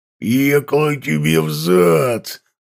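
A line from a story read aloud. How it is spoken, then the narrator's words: Uncontrolled growl. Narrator (Russian): зарычал, уже не контролируя себя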